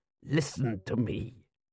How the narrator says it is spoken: hissed Ahmed

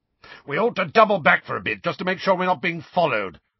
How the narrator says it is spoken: Moody shouted

